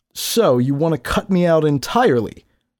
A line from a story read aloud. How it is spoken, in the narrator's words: Dalla shouted back in her old voice